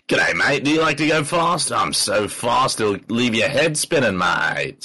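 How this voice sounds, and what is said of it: Put-on Australian accent. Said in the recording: “it's not going to be Aussie, like, yeah, g'day, mate ... I would love to hear Aussie Sonic.”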